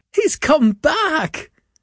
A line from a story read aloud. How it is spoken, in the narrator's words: cried Mrs